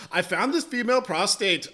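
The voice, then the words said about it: Poor attempt at Scottish accent. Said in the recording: “I can't do a Scottish accent. ... A fucking leprechaun. ... I'm not good at accents or impersonations.”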